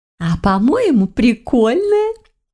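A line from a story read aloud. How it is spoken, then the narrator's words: Chuckling. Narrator (Russian): хохотнула Мавка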